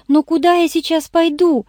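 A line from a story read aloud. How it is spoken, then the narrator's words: Whimpering. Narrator (Russian): захныкала Ирен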